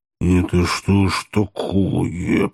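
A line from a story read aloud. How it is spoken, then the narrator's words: Almost hissing. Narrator (Russian): почти зашипела Зазелла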